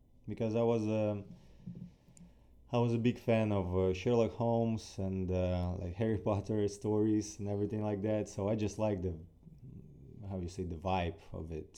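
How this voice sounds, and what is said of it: Ukrainian-accented English. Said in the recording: “someone with a Ukrainian accent”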